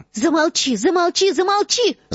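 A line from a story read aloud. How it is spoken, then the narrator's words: Hysterical shouting. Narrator (Russian): закричала Гермиона в истерике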